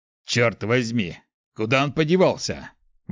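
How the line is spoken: Breathless exhale. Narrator (Russian): выдохнул Борх

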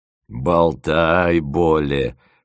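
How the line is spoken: Snorting scoff. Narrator (Russian): хмыкнул мамонт

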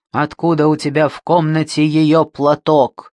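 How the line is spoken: Father growling. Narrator (Russian): прорычал отец

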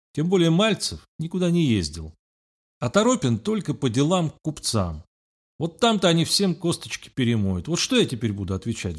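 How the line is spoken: Sigh. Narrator (Russian): вздохнула она

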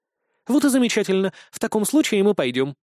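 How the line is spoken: Rapid interrupting chatter. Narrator (Russian): не дав мне договорить, протараторила ведьмочка

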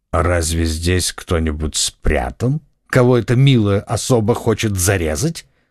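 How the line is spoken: Mocking, contemptuous tone. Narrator (Russian): спросил лорд Винтер своим насмешливым, презрительным тоном

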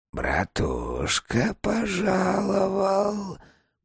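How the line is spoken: Quiet hiss. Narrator (Russian): прошипел тихий голос

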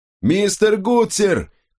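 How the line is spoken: Shouting. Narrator (Russian): крикнул капитан

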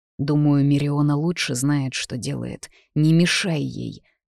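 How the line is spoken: Hissed in ear. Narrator (Russian): прошипел мне на ухо

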